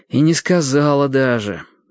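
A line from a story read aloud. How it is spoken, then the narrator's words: Bitter sigh. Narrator (Russian): горько вздохнул Лодька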